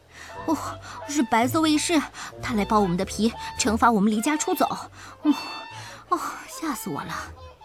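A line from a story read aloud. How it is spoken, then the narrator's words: Breathless, frightened. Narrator (Chinese): 气喘吁吁地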